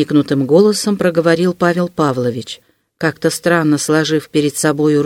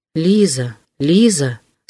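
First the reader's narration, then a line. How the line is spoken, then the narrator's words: Inner moan. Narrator (Russian): стонало в его сердце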